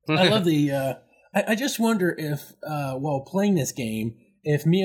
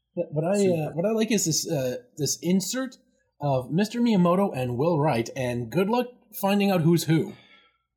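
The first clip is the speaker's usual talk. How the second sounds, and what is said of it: Slight put-on accent. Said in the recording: “when you said insert, you almost got like a little accent going”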